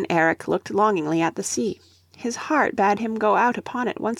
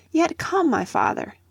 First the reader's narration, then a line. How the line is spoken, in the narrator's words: pleaded Leif